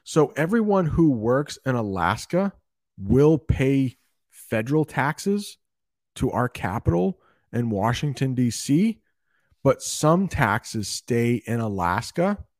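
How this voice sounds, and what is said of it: Canadian-like North American accent. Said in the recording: “my accent is like a Canadian accent.”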